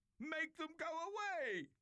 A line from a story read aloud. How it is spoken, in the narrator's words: Pharaoh screamed